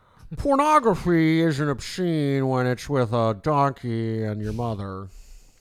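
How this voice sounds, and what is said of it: Larry Flynt impression. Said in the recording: “Larry Flynt just talks like this. ... I can do a good Larry Flynt impression”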